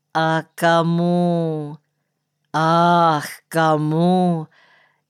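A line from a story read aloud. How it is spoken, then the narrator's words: Sorrowful sigh. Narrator (Russian): Никольский сокрушенно вздохнул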